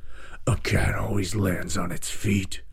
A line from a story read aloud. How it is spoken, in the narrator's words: growled the Lynx